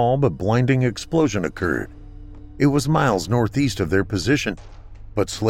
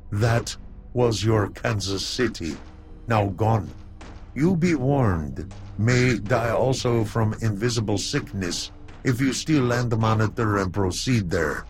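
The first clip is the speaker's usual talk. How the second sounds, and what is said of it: Broken foreign-accented alien voice. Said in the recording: “spoke in a broken accent”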